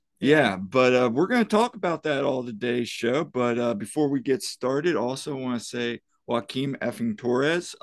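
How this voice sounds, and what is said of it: Scratchy, slightly hoarse voice. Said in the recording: “my voice is a little scratchy from cheering”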